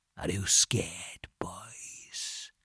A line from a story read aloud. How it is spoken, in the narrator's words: he said very quietly